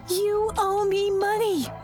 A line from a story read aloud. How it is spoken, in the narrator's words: The woman kept yelling